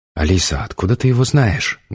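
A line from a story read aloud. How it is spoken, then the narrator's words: Loud whisper. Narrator (Russian): громко зашептала Олечка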